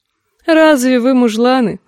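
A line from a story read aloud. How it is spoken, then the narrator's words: Laughing. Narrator (Russian): засмеялась Алейна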